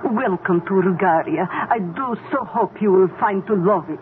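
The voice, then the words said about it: Put-on foreign tour guide accent. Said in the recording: “You like my tour guide accent?... But you don't have an accent when you speak to us.”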